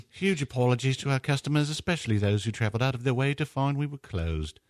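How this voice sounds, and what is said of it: Put-on English accent. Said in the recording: “I guess I should be doing this in an English accent, right? Because it's in England.”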